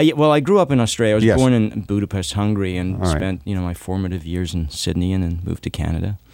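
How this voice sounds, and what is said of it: Usual voice. Nothing is said of it.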